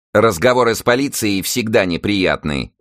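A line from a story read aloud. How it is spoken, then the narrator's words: Angry bark, widow. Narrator (Russian): злобно рявкнула на него вдова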